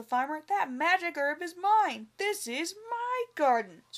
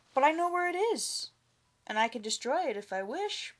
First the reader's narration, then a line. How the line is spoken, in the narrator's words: Ba Ko replied calmly